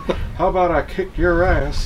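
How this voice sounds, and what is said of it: Hank Hill Texas accent impression. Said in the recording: “in a Texas accent? I just imagined Hank Hill saying”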